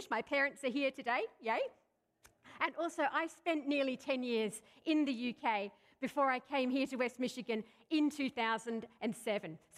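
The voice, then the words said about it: Australian accent mixed with English. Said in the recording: “I'm an Aussie. I'm an Australian by birth. But there's also a lot of English mixed up in my accent ... that explains my funny accent”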